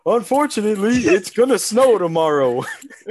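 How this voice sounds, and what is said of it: Imitates another person's voice. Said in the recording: “I'll do my Steve Harvey weather ... this is Steve Harvey? Yeah.”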